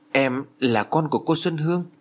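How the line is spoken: Stammering question. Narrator (Vietnamese): Hảo lắp bắp hỏi

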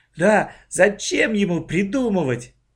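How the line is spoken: Laughing. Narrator (Russian): Оля засмеялась

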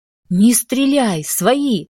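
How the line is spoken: Yell at full volume. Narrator (Russian): заорала я во все горло

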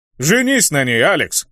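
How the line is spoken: Warrior chuckling. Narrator (Russian): хохотнул воин

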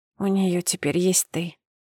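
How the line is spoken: Whispered. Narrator (Russian): прошептала

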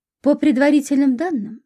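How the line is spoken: Calm explanation. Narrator (Russian): спокойно объяснил Колесниченко

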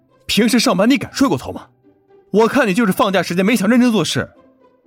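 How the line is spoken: Angry yelling. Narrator (Chinese): 赵斌气得吼了他两句

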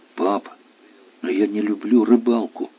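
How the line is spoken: Timid, disappointed objection. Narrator (Russian): робко возразила Женя, поняв, что надежды и на этот раз не сбылись

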